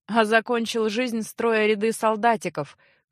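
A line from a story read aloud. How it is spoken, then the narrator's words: Snorting. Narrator (Russian): фыркнул Эгрис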